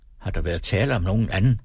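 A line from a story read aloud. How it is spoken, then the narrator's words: Plain question. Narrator (Danish): spurgte Krog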